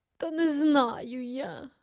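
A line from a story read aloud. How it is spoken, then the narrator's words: Honest admission with sigh. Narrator (Ukrainian): чесно зізнався і зітхнув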